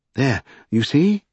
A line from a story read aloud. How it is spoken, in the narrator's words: exclaimed Mr